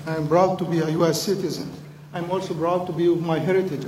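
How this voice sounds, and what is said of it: Foreign, non-American accent. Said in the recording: “As you could tell from my accent, I am originally not from West Virginia ... I am from that region”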